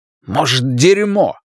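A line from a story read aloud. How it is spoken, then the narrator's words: Angry curt retort. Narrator (Russian): зло бросил Ларри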